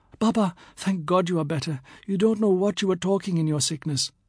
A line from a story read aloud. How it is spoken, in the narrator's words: someone speaks anxiously